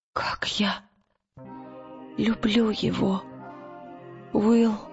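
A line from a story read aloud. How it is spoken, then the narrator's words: Broken whisper. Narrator (Russian): прошептала она прерывающимся голосом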